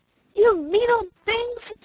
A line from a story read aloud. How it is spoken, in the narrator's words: screamed